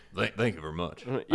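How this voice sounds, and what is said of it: Bad imitation of another person's voice. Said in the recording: “do your Elvis impression ... This is not Elvis ... yours was terrible”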